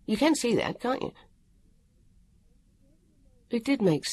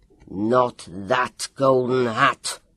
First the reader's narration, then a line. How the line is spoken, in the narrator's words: Sempiterne Walker roared